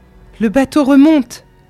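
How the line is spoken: Joyful shout. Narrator (French): cria Dudored, d'un accent joyeux

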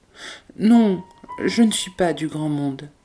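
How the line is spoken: Sad. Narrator (French): dit-elle tristement

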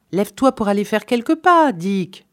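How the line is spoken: Shouting. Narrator (French): cria le plus décidé

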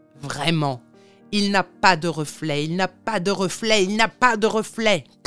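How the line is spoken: Crowd shouting wildly. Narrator (French): criait-on à tort et à travers

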